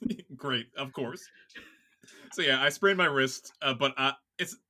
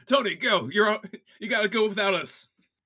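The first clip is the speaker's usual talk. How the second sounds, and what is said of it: Shouting. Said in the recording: “maybe I'm shouting”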